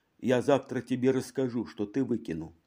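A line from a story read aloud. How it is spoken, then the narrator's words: Quiet. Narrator (Russian): Какая-то женщина тихо говорила пьяному мужу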